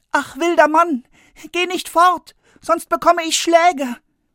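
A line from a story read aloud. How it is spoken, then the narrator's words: Frightened boy calling after. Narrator (German): Der Junge aber bekam Angst und er rief ihm nach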